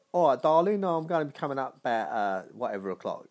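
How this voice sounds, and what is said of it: Put-on London accent. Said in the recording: “I'd put on the accent. ... you've already got a London accent.”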